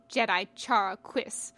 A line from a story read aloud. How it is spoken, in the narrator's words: the Dug spat